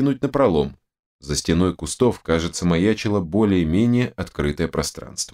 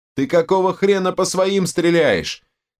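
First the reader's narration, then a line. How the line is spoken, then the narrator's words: Shouted. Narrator (Russian): крикнула Ката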